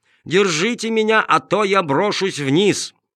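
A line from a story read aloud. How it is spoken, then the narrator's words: Wailing yell. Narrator (Russian): завопил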